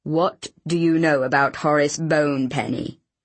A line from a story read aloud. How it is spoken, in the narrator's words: he asked in a chill tone